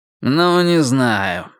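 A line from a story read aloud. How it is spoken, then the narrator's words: Uncertain drawl. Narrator (Russian): неуверенно протянул Фред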